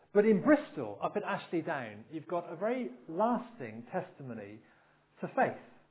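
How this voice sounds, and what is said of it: Bristol English accent. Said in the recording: “I come, as most of you know, from Bristol. My accent probably betrays it.”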